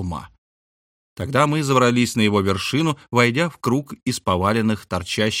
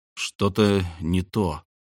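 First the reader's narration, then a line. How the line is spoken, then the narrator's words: Muttered. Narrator (Russian): пробормотал я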